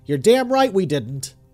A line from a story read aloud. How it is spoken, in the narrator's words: I shouted